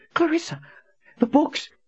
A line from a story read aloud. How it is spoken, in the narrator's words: he panted